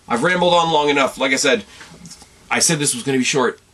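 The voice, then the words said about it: Strained, fading voice. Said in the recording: “I'm sure you guys are getting quite sick of my voice. I'm losing my voice because I've done two pods back to back”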